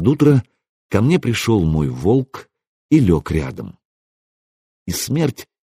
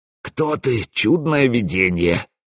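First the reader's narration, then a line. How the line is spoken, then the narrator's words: Glad hoarse wheeze. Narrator (Russian): просипел, радуясь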